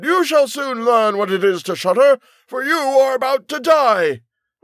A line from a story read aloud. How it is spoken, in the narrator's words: shouted